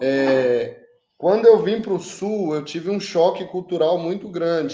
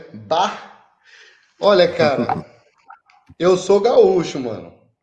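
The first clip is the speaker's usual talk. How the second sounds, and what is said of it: Put-on southern Brazilian gaúcho accent. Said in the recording (Portuguese): “com um belo de um sotaque aqui do sul que a gente sempre usa”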